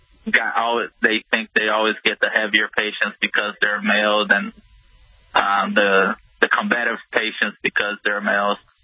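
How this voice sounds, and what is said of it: Portuguese Brazilian accent. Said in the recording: “I love your accent. It's Portuguese, right? ... I'm a Brazilian background ... Can't ... Get rid of the accent.”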